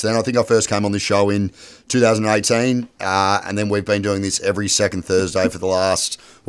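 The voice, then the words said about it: Croaky, hoarse voice. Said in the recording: “I lost my voice, so apologies if I sound a little bit croaky.”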